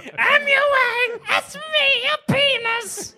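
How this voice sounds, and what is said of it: Weird squeaky cartoon character voice. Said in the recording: “Your penis has a weird voice. ... It's kind of like Toad. ... it sounds like Toad from Mario.”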